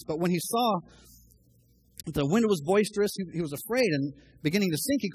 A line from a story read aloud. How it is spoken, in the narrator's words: he cried out